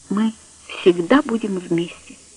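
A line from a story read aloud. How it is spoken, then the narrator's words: Quiet. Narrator (Russian): тихо сказал он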